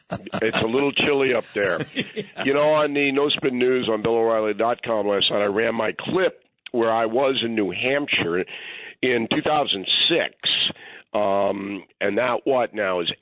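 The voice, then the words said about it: Congested voice with a cold. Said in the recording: “I have a cold. ... I could tell in the morning message. ... I have the sniffles.”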